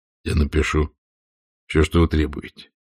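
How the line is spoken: Plain. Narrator (Russian): сказал Роман

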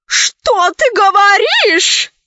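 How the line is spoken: Old woman shouting. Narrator (Russian): закричала бабушка

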